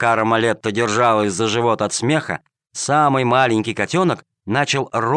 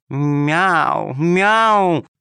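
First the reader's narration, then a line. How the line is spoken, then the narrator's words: Insinuating cat meow. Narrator (Russian): замяукала вкрадчиво кошка-хромоножка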